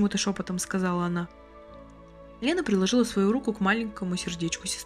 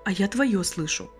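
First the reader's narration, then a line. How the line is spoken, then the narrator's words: Quiet, smiling. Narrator (Russian): так же тихо улыбаясь, сказала Лена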